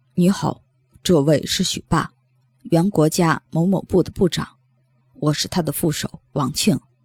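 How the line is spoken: Soft, gentle report. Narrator (Chinese): 他身后的人轻声细语地报告说

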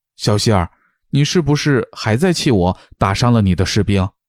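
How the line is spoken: Low, deep voice. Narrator (Chinese): 欧阳靖宇沉声问道

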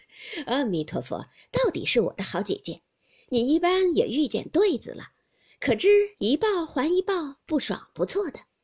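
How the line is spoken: Laughing. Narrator (Chinese): 黛玉听了笑道

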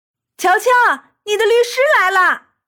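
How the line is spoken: Shouting from below. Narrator (Chinese): 乐笑在下面喊

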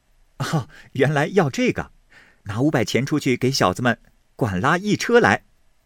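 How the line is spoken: Laughing. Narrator (Chinese): 宝玉笑道

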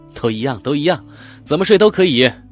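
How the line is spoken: Laughing. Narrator (Chinese): 潘小伟笑着说

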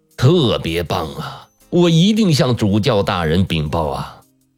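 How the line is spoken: Loud praise. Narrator (Chinese): 善良的神父大声地夸道

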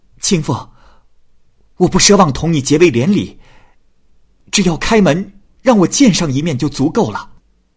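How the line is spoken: Desperate pleading. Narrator (Chinese): 耿生又苦苦的哀求说

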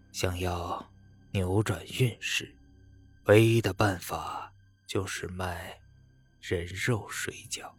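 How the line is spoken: Lowered voice. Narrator (Chinese): 他压低了声音说道

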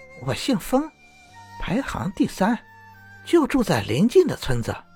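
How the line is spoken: Woman, smiling. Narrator (Chinese): 女子笑着说

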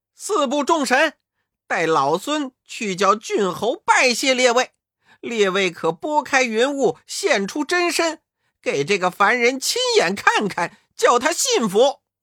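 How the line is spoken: Stern loud shout. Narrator (Chinese): 悟空厉声高叫道

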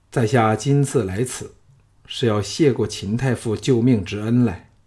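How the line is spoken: Sighing. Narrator (Chinese): 叹道

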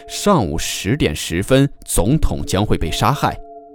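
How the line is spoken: Low voice. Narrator (Chinese): 打电话来的人低声说

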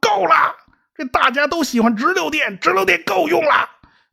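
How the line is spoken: Furious roar. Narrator (Chinese): 爱迪生实在受不了了，一拍桌子，大吼一声

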